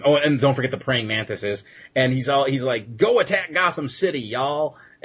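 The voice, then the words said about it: Exaggerated redneck Southern accent. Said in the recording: “the really bad redneckish accent I'm putting on”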